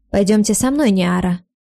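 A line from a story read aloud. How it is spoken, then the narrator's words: Ringing voice. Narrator (Russian): звонким голосом сказал камердинер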